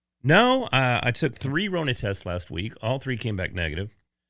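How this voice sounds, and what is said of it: Sick, not fully recovered voice. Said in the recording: “I'm still a little under the weather, so my voice hasn't quite gotten back to where I appreciate it being.”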